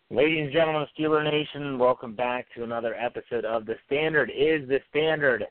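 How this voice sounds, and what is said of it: Tired-sounding voice. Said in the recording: “You sound a little tired”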